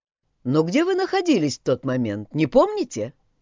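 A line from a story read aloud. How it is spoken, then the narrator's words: Plain. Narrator (Russian): спросил Мэтью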